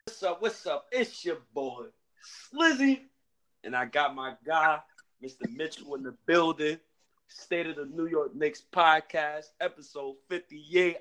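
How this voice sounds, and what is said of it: Joyful, happy-sounding voice. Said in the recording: “I know you hear the joy in my voice. I'm so happy.”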